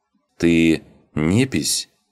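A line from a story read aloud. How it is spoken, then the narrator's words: Uncertain question. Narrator (Russian): неуверенно спросил Рос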